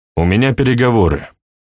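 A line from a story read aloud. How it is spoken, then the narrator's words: Angry. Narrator (Russian): сердито сказал Сергей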